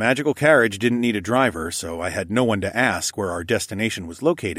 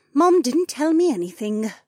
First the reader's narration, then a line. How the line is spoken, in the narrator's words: Janel answered with a sigh